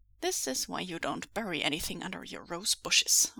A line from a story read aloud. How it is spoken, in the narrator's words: Weiying mutters